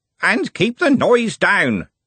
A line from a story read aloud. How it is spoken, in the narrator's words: Smeems bellowed